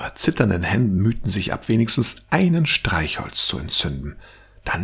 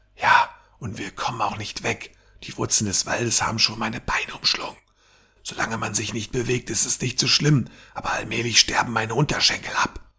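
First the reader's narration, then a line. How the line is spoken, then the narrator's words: Whisper. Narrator (German): Lisha flüsterte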